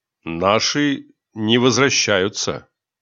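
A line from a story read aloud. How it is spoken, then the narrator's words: Muffled cough, then speaking. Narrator (Russian): Боцман глухо откашлялся и сказал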